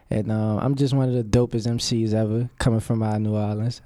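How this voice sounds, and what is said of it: Slight regional accent. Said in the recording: “we hear the accent a little bit. We hear a little”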